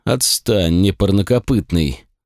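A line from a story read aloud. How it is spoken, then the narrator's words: Weary, listless dismissal. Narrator (Russian): устало и как-то вяло отмахнулся Пенелопус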